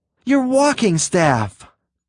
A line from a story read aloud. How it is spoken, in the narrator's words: Green gasped